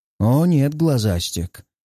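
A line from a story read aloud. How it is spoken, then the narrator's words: Hoarse laughter. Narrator (Russian): хрипло смеюсь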